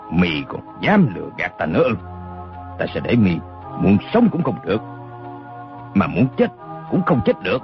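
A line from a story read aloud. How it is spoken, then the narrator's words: Menacing, through gritted teeth. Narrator (Vietnamese): Đinh Xuân Thu mắt lộ hung quang, gằn giọng nói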